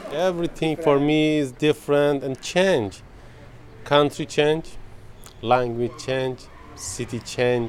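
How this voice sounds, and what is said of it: Iranian speaker with Russian-sounding English accent. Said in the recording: “even ... accent has changed. He sounds Russian ... I never see Iranian people that speak English like that.”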